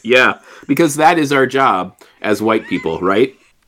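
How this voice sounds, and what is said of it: Sarcastic tone. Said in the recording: “I'm being sarcastic, just so everybody knows I'm being sarcastic.”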